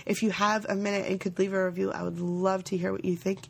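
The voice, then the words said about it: Unwell, rough-sounding voice. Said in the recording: “my voice is probably not sounding so great because I'm still not, still not 100%”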